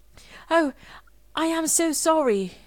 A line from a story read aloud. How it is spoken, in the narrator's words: she cried